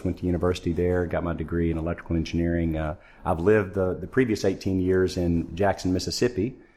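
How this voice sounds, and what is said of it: American Southern accent. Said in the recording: “You can tell by my accent I'm not a Canadian ... originally from Arkansas in the United States”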